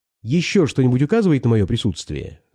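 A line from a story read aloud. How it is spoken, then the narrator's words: Plain question. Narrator (Russian): спросил он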